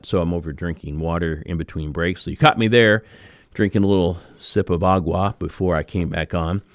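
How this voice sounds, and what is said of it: Slightly raspy voice. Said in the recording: “I'm a little raspy myself, if you could notice that or pick up on that.”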